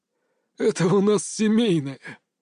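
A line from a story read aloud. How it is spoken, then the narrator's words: Old man's hoarse laugh. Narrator (Russian): хрипло рассмеялся дед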